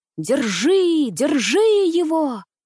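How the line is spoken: Shouting in distorted voice. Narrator (Russian): кричал не своим голосом урядник

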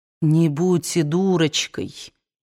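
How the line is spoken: Calm. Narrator (Russian): спокойно сказал он

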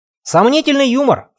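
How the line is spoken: Scornful snort. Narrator (Russian): фыркнул майор

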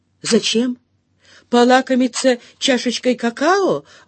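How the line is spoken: Shouting. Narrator (Russian): выкрикнула

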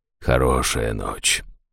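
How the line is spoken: Quiet priest speaking. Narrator (Russian): тихо проговорил жрец

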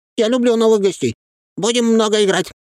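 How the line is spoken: Exclamation. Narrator (Russian): воскликнул болванчик

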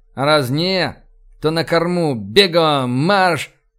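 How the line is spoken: Growled. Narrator (Russian): Рыкнул я

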